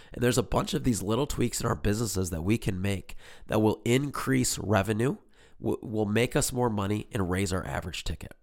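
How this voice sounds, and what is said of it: Raspy, hoarse voice. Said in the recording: “Thanks for sticking through it through my raspy voice. Hopefully by the next episode, I'm back to normal.”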